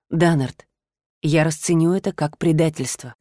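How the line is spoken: Quiet confession. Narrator (Russian): тихо призналась она

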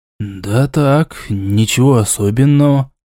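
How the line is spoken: Mumble. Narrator (Russian): промямлил Истамирель

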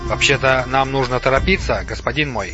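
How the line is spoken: Plain. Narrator (Russian): ответил Сухмед

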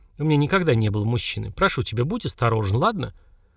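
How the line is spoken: Quiet, shy woman. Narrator (Russian): Женщина негромко застенчиво сказала

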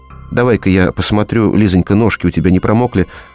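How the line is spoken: Calm, matter-of-fact. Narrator (Russian): сказала она спокойно и буднично

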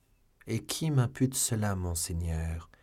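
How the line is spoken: Plain. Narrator (French): dit D'Artagnan

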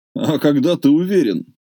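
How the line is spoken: Laughing question. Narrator (Russian): смеясь спросил дядя Оскар

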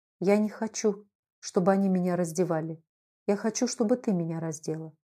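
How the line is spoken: Weak, strained whisper. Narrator (Russian): Собравшись силами, он с трудом прошептал нагнувшейся Наталье Ивановне

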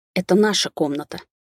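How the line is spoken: Curt, through gritted teeth. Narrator (Russian): вместо приветствия процедила

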